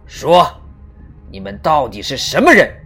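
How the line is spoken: Low stern shout. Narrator (Chinese): 低声喝道

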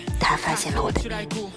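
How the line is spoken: Smiling whisper. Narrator (Chinese): 他依旧微笑，悄声说

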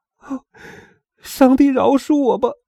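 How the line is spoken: Crying. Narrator (Chinese): 埃德蒙哭着

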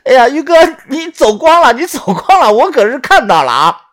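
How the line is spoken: Loud laughter. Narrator (Chinese): 豆芽仔见状大笑道

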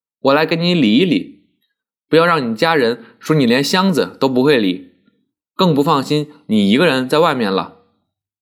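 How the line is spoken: Laughing. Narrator (Chinese): 笑道

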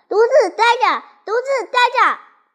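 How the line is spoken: Shouting. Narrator (Chinese): 大叫

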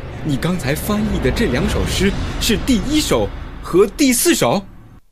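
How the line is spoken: Sudden call. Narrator (Chinese): 科顿突然叫住他

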